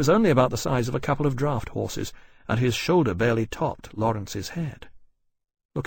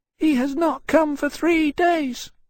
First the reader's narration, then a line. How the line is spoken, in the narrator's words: the Winchester said sadly, his small head drooping